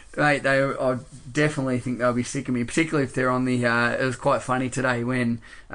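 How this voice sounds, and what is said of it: Fairly strong Australian accent. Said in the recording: “my quite Australian accent”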